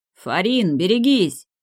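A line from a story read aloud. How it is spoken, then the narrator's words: Shouted. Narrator (Russian): крикнул Харек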